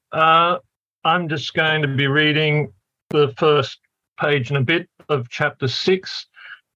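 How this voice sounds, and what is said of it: Australian accent. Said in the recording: “a few Australian accents here today”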